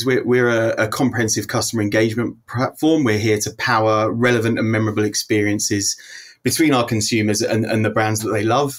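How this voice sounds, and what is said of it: British accent. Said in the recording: “As you might be able to tell from my accent ... I'm over here in the UK”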